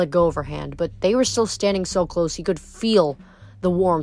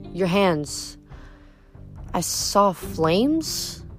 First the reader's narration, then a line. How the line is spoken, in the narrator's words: Hazel said uneasily